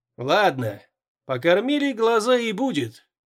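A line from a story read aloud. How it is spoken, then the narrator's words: Grumbling. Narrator (Russian): проворчал Мартин Мискайвих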